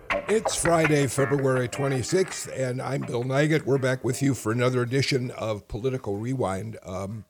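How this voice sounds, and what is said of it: Hoarse, strained voice. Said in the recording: “I've been losing my voice. I've been hoarse.”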